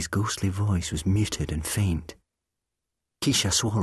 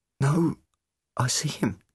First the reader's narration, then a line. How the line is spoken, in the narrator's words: Rose croaked